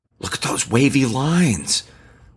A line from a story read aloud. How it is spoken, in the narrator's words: Claudio gasped